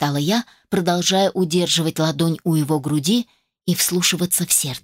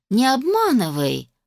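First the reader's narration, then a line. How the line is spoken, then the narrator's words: Grumbling. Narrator (Russian): проворчала я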